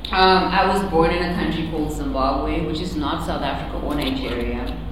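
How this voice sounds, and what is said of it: Noticeable foreign English accent. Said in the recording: “Apparently, I have an accent. Do you guys hear it? ... Yes.”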